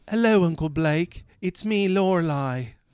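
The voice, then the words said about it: Put-on British accent, child's voice. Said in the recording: “I'm gonna give her a British accent just because it'll be funny”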